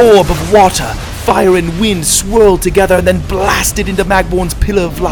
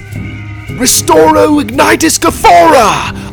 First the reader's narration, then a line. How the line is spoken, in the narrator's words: I shouted